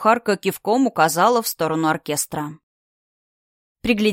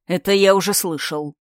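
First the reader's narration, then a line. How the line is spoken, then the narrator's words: Said through gritted teeth. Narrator (Russian): процедил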